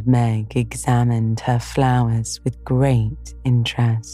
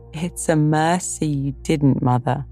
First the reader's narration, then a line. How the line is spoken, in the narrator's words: laughed Jo